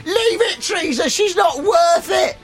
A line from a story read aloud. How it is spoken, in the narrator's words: shouting